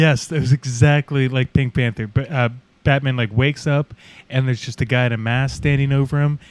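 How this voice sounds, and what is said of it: Usual voice. Nothing is said of it.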